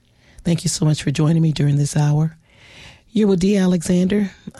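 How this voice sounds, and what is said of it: Raspy voice. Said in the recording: “I'm a little under the weather ... please excuse my raspy voice.”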